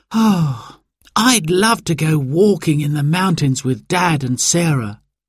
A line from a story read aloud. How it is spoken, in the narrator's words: sighed Simon